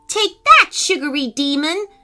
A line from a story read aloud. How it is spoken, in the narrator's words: shouted Macy